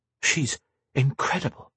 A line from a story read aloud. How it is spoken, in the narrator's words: Sonika murmured to herself, in awe